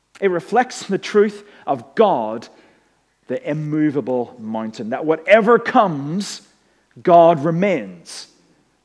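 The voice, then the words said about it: Northern Irish accent. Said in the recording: “my accent had been recharged ... go home to Northern Ireland”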